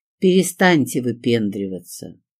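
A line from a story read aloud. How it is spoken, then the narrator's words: Calm motherly scolding. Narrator (Russian): спокойно сказала я, стремясь добиться тона, каким журит мать провинившегося ребенка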